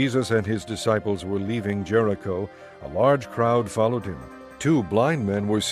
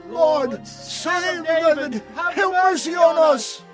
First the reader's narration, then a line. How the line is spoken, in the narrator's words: they shouted all the louder